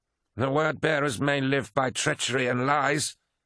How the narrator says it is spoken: snarled Abaddon

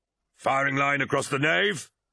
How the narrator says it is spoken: shouted Tarvitz at the top of his voice

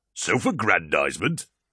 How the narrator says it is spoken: laughed Torgadon

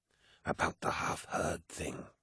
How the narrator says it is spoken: hissed Cruz, quietly so that none of the deck crew could hear

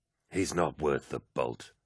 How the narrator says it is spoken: muttered Aximand

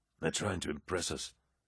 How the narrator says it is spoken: Axemand murmured to his brothers

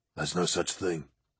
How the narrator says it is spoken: said Axeman gruffly

